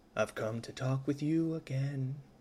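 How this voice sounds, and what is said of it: Sings imitating another person's voice. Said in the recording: “doing my best Simon and Garfunkel impression”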